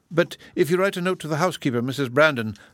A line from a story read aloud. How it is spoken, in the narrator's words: said Marianne eagerly